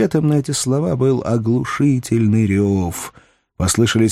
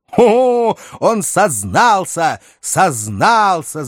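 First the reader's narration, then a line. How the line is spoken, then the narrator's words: Triumphant shout in unison. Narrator (Russian): закричали в один голос Руслер и Павильон, сияющие от восторга, с торжеством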